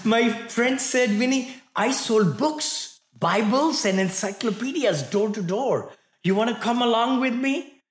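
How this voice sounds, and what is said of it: Thick Indian accent. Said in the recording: “I just arrived from India. I couldn't speak much. You know, all this thick accent. I still have thick accent.”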